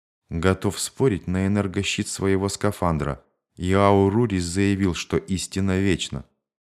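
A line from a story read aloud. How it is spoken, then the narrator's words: Barely audible. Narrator (Russian): Борис Фатно едва слышно произнес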